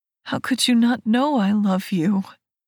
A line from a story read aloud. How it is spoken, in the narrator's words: He asks, chuckling